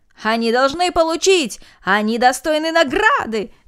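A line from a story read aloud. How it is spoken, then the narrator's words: Crowd shouting together. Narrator (Russian): закричали все без исключения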